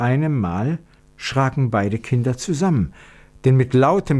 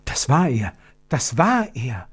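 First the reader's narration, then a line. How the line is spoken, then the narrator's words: Whisper. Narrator (German): flüsterte Gertrud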